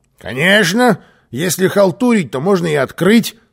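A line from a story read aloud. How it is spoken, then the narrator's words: Grumbling. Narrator (Russian): пробурчал Карлсон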